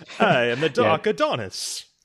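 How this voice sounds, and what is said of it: Transylvanian-accented villain voice. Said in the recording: “he has like a very Transylvanian accent”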